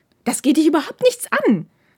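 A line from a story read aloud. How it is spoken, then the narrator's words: Hissed back angrily. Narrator (German): fauchte Takeda zurück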